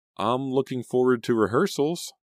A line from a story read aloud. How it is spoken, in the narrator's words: Selena stammered